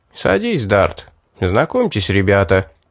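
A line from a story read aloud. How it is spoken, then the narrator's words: Cheerful. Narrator (Russian): Торвин весело сказал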